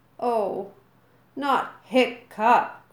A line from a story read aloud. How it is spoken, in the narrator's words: groaned Dog's Breath, the Death Brain, the most and most of the other boys